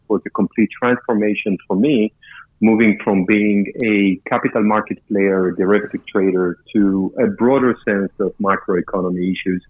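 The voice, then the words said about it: Israeli accent. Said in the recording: “my accent, right? So wasn't born in South Boston, as you can tell. Israeli”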